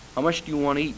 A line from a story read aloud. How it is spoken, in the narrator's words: asked